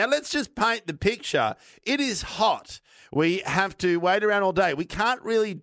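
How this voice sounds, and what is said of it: Usual voice. Nothing is said of it.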